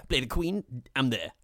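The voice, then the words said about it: Imitates another person's voice. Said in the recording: “Great Olivia Colman impression.”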